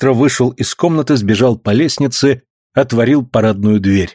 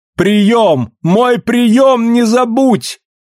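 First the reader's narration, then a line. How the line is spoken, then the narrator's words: Shouting over street noise. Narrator (Russian): кричала она, стараясь перекрыть рев улицы и заглушаемый шумом машин и боем всех часов сразу ее голос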